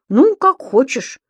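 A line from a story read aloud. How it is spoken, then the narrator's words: Offended. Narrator (Russian): обиженно отозвался Субастик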